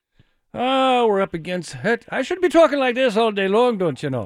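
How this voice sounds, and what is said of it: Put-on Irish accent. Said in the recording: “I don't do an Irish accent... That's pretty good, actually.”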